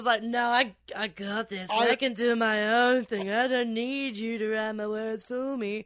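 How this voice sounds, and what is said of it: An impression of someone's voice. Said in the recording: “That's pretty good, actually. ... I start off really good with the impression.”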